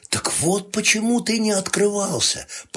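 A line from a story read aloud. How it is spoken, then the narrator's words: Whisper. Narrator (Russian): прошептала я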